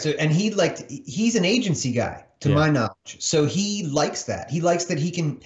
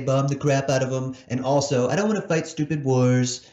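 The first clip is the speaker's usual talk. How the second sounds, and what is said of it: Imitates another person's voice. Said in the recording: “That's a good Trump impression.”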